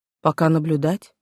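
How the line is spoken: Plain. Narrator (Russian): ответил Блэквуд

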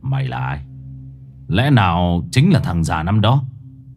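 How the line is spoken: Harsh, menacing voice. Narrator (Vietnamese): gằn giọng

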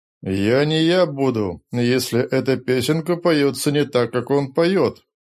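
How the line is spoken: Gloomy. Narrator (Russian): мрачно сказал Рори Ненквису

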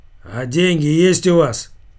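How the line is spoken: Rough question. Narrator (Russian): грубо спросил он Серегу

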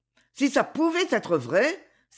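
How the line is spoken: Flushed, excited exclamation. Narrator (French): s'écria Ivana, dont les joues s'étaient empourprées

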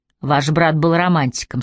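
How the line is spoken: Plain. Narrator (Russian): сказал Логан

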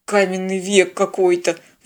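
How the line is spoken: Indignant muttering. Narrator (Russian): возмущенно пробормотал пилот

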